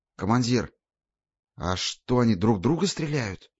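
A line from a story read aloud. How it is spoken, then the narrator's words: Whispered question. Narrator (Russian): шепотом переспросил Ёж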